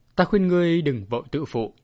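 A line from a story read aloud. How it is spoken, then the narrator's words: Hoarse retort. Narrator (Vietnamese): Tần Thao khàn khàn đáp trả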